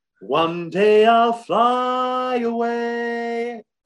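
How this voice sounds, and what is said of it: Imitates another person's singing voice. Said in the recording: “How good was the Kidman imitation?”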